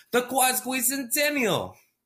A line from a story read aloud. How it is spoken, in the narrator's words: He shouted